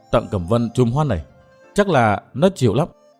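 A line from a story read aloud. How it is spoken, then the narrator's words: Smiling mutter. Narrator (Vietnamese): bóng đen mỉm cười lẩm bẩm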